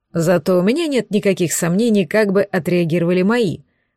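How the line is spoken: Chuckling. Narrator (Russian): хохотнул Гирзл

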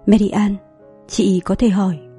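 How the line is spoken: Gentle, tactful, quietly worried. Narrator (Vietnamese): trong nỗi lo lắng thầm lặng, hỏi qua giọng nhẹ nhàng ý tứ nhất

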